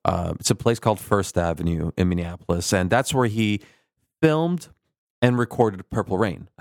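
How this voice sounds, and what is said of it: Midwestern twang with Turkish accent. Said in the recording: “I got this weird, like, Midwestern Turkish twang. ... That's why you sound like this?”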